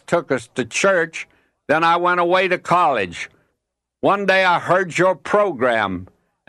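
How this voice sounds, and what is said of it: Slow Southern drawl. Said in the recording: “your slow southern drawl ... my accent”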